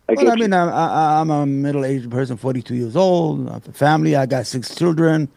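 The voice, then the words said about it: Yemeni accent, slightly mumbled speech. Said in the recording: “you have like an accent... I'm from Yemen... he has a speech impediment... I mumble the word”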